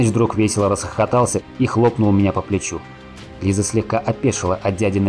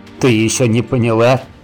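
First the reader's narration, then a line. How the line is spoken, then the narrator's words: Chuckling. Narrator (Russian): хохотнул Саныч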